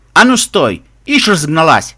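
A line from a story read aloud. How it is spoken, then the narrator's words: Barked by a guard. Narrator (Russian): рявкнул конвоир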